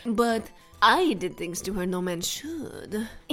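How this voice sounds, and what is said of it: Put-on Brazilian accent. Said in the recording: “He's Brazilian, by the way. That's why I did that accent.”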